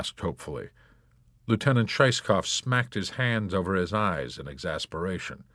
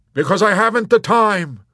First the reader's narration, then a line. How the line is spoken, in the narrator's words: he snapped at her impatiently